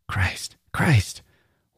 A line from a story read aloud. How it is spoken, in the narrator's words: Her heart began to pound, she whispered